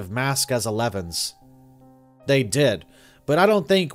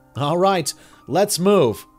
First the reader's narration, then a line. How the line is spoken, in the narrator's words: Three called, doing his best to shout in a full-face respirator